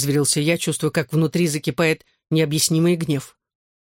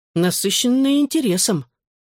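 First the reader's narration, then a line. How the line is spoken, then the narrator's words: Calm explanation. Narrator (Russian): спокойно объяснил Гипс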